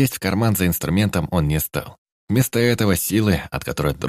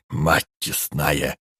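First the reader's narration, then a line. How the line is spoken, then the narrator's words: Breathed, flat. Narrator (Russian): выдохнул гном, и в его голосе не было ни жадности, ни восторга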